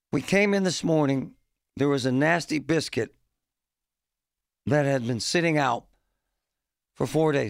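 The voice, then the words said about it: Rough voice. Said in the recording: “My voice is kind of rough today.”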